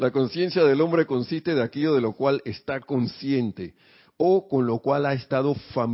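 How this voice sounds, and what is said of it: Usual voice. Nothing is said of it.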